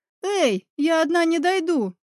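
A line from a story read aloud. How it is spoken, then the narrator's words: Shouted. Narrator (Russian): крикнула Катра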